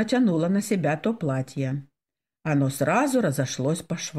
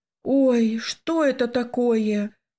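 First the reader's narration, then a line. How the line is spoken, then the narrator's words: Exclaiming, near tears. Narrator (Russian): воскликнула я, едва сдерживая слезы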